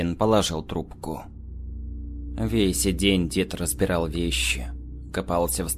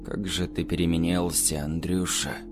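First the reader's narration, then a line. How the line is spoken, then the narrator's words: Bitter sigh. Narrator (Russian): Горько вздохнул Михалыч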